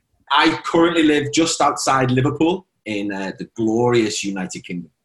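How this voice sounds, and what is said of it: British accent. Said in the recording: “you have a wonderful accent.”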